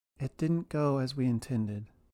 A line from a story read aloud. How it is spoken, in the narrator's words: Nick calmly began